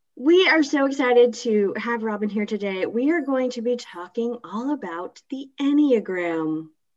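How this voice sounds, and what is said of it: Soft, calm public-radio announcer voice. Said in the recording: “you have your NPR voice on... Are we all going to whisper?... I'm using my NPR voice. That is not a whisper.”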